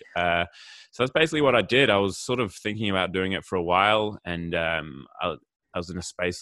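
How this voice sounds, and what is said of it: Australian accent with slight British tinge. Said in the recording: “I detect mostly an Australian accent, but somewhat of a slight UK accent there as well”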